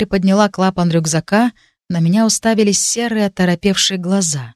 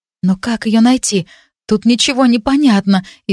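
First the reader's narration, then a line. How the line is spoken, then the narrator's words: Frightened whisper. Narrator (Russian): испуганно прошептала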